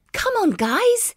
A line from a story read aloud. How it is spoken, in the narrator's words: exclaimed Zoe